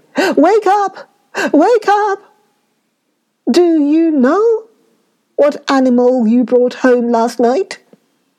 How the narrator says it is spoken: called loudly

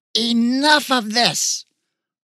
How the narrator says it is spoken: shrieked

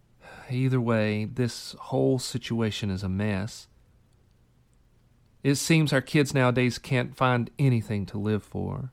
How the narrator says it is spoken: With a heavy sigh, she said

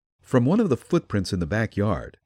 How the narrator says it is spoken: said Chick

